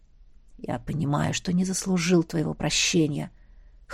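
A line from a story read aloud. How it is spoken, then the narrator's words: Hoarse. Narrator (Russian): хрипло сказал князь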